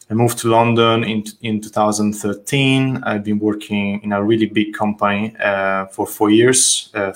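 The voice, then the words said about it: Italian accent. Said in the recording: “I'm from Italy, as you can judge from my name and my accent, ... from Tuscany”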